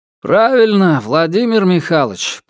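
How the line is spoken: Grumbling. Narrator (Russian): проворчал Валиев

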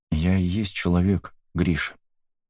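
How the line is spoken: Quiet. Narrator (Russian): сказала тихо

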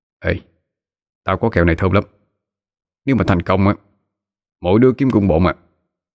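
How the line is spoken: Low quiet voice. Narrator (Vietnamese): Hiếu Hào Hoa nhỏ giọng nói

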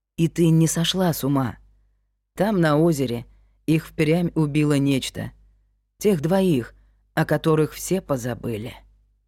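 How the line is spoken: Soft, soothing. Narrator (Russian): Крик баюкая, мягко сказал

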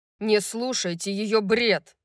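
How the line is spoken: Growled. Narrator (Russian): прорычал Рун

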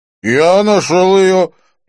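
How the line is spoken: Drunken voice. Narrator (Russian): проговорил нетрезвым голосом Винсон

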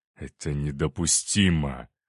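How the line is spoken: Through clenched teeth. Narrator (Russian): процедил сквозь зубы

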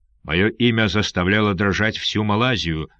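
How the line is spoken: Pirate speaking coldly. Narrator (Russian): холодно сказал пират

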